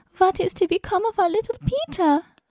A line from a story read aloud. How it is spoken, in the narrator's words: Lotta sobbed